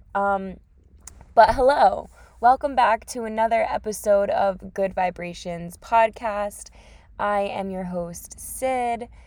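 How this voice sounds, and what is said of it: Groggy early-morning voice. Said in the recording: “sorry about my voice. This is what I sound like in the morning”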